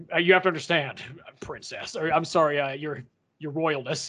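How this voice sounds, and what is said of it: Bad, almost Elvis-like character voice. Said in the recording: “This is my terrible, almost Elvis impersonation, but I'm”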